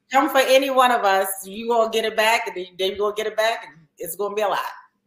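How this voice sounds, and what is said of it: Thick Baltimore accent. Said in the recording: “Oh, I hear that Baltimore accent ... your accent is so thick”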